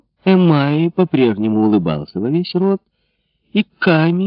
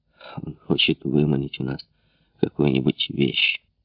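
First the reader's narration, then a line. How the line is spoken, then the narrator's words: Muttered, captain. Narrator (Russian): пробормотал капитан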